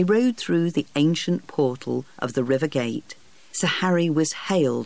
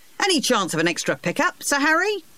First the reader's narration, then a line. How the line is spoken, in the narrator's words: one of them shouted